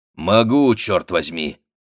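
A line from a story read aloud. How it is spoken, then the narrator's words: Plain. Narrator (Russian): сказал Спейд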